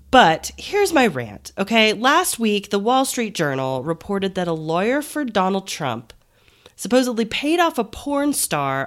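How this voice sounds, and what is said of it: Stuffy, congested voice from a cold. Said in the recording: “I have a little bit of a cold ... I apologize if I sound a little stuffy”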